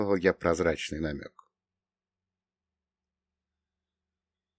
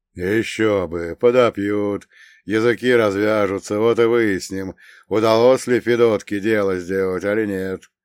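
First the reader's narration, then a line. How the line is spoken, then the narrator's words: Old man's booming drone. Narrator (Russian): прогудел дед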